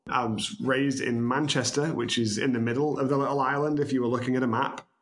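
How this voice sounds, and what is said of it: British accent. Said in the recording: “originally I'm from the UK, as you can tell by my southern drawl”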